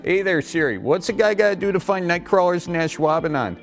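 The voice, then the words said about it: Exaggerated Midwestern American accent. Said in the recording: “your Midwest accent”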